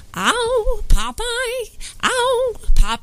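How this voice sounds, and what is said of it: Olive Oyl impression. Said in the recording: “My best impression. ... I do olive oil. ... her best impression. ... She nails the Great Eight Quiz.”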